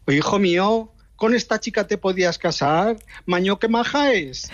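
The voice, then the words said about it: Imitated mother with Aragonese accent. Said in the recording (Spanish): “con acento aragonés”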